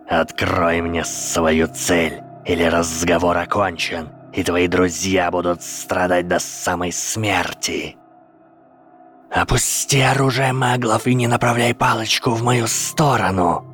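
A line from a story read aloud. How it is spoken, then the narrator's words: Cold, dangerous hiss. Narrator (Russian): Ответил Гарри, изо всех сил стараясь, чтобы его шипение прозвучало как можно холоднее и опаснее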